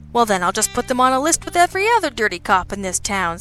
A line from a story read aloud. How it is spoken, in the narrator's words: Sabian said cheerfully